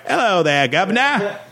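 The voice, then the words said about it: Exaggerated mock British accent. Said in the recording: “when an American tries to do a British accent, it's always like”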